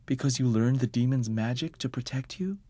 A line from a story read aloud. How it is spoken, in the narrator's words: Father smiled and laughed softly